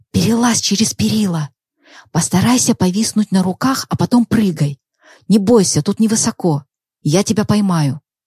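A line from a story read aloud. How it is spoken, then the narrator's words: Quiet speech. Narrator (Russian): Валерий тихо сказал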